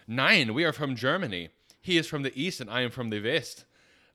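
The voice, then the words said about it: Put-on German accent. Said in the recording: “Is my accent working for you?”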